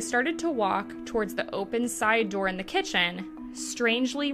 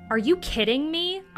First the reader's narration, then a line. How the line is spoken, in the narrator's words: cried